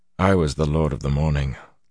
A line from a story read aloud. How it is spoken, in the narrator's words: Luz Theron mumbled